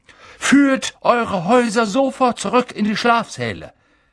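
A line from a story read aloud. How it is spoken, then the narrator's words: Blustering rumble. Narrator (German): polterte er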